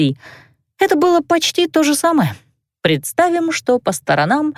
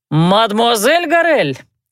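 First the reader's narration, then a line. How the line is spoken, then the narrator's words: Joyful shout. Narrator (Russian): радостно прокричал мэтр Давидек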